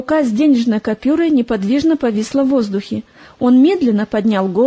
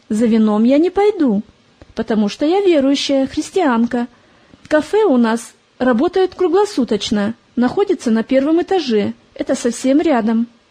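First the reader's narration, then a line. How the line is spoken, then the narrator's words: Calm reply. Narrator (Russian): Привыкшая к разным посетителям, Полина спокойно ответила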